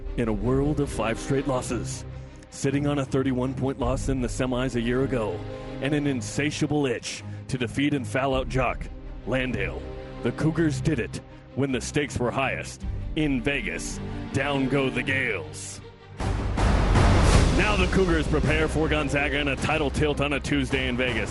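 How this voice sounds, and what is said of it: Dramatic movie trailer narrator voice. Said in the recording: “Get your movie trailer voice ready.”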